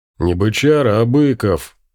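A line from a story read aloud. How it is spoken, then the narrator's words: Offended deep bass. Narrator (Russian): обидчиво пробасил здоровяк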